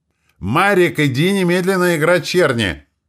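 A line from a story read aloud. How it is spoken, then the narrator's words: Even louder yelling. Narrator (Russian): Еще громче заорала Роза Петровна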